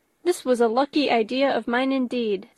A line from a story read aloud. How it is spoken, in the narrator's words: said Mrs